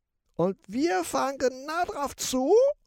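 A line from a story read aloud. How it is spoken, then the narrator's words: Rat hissing, shivering. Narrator (German): zischt die Ratte bibbernd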